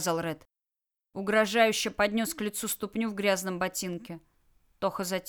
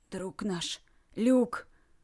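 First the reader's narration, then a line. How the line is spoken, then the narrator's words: Muffled, strained. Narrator (Russian): Вдруг глухо через силу проговорил Ред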